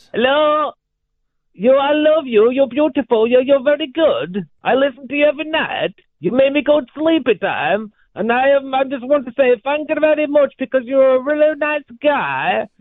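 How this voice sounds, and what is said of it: Put-on Borat character voice. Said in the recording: “you're doing the Borat voice.”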